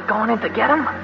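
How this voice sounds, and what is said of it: Whispered question. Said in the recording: “What are you whispering for?”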